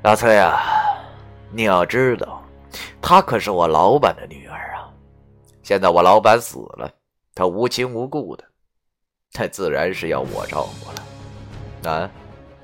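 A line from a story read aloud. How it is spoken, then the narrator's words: Sneering. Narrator (Chinese): 便冷笑着对我说道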